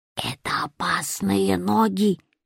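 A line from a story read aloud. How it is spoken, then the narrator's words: Quiet hiss. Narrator (Russian): шипел он потихоньку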